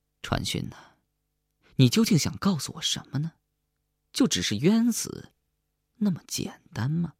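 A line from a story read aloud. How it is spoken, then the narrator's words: Murmuring to self. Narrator (Chinese): 不禁喃喃自语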